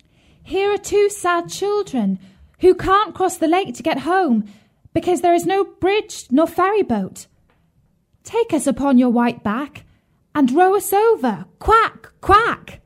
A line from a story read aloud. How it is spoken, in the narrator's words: she called out